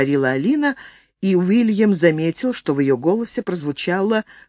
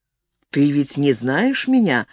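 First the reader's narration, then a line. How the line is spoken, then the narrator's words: Raised, desperate objection. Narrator (Russian): возразил он, повысив голос и с отчаянием сознавая, что не может спокойно вести беседу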